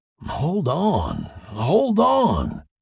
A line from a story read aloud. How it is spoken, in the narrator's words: he cried